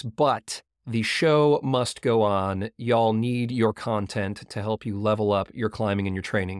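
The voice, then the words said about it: Voice affected by a cold. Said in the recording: “fighting a little bit of a cold, as you can probably hear in my voice”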